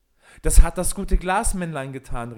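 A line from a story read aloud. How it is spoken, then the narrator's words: Called out. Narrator (German): rief Peter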